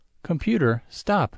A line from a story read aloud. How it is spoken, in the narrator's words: Jot cries